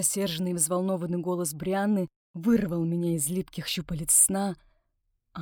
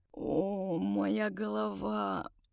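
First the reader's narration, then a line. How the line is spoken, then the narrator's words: Hoarse croak. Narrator (Russian): прохрипел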